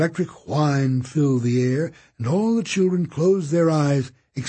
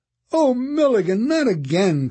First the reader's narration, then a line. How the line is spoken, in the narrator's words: cried Kate